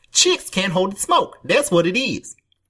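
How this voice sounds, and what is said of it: Imitates another person's voice. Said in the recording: “That's your Anthony Michael Hall impression? ... he does that voice ... That's an Anthony Michael Hall impression. I hope that you just did a dead-on impression just now. ... That's pretty good.”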